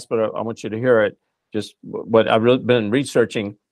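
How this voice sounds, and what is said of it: Fast speech. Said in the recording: “I know I'm saying this fast”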